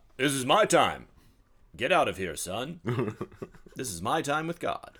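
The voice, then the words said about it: Unusual radio-style voice. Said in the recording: “That's a different radio voice than the one I normally hear.”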